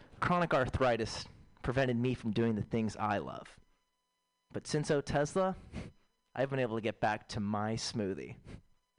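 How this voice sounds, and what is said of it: Woman in a TV commercial voice. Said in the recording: “my impression of a woman in an O'Tesla commercial”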